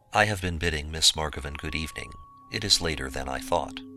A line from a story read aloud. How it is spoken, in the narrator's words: said, as calmly as I could